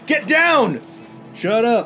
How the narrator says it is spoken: one of the guards shout out

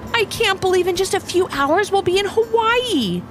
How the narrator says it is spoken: said Levi excitedly

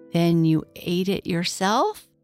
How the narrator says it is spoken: Rusty Wren faltered

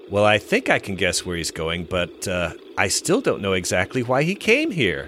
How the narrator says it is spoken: John says with a chuckle

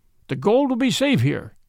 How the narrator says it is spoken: cried

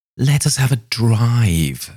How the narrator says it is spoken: suddenly exclaimed Mrs

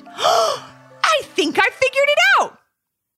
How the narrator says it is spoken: Ivy finally stood up and exclaimed

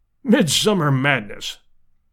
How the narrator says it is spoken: snorted Summerlee

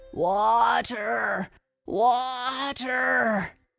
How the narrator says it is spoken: moaned

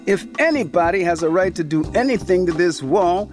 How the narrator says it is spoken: Lou shouted up to her

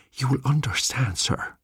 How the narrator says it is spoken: breathed the old man

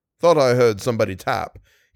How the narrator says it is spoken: he said with a shamefaced laugh

